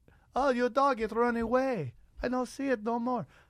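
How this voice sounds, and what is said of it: Poor put-on Russian accent. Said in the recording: “How great was that Russian accent? ... It was fucking Mexican. That's how bad that accent was.”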